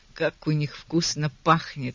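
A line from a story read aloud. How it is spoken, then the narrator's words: Thoughtful remark. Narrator (Russian): задумчиво заметил детектив-инспектор Фокс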